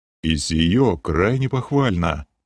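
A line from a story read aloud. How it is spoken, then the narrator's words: Conceding old man. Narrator (Russian): не стал спорить старый маг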